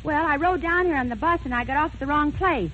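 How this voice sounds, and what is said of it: Breathless, panting speech. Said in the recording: “so out of breath?”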